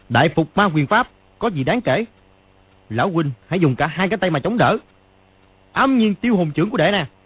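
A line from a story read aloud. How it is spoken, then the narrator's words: Loud shout. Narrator (Vietnamese): Chàng quát to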